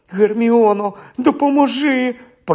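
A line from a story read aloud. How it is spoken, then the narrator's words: Quiet moan. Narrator (Ukrainian): простогнав тихенько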